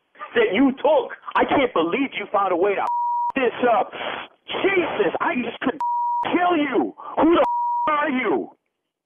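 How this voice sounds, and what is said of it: Angry, agitated yelling. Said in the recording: “you sound like a crazy animal. Just mellow out”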